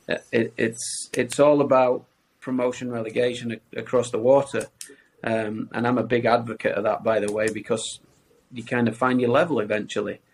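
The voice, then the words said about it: Speaks with a noticeable accent. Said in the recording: “As you can tell by my accent”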